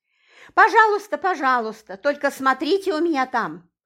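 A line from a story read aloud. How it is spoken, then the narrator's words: Joking shout. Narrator (Russian): шутливо крикнула она нам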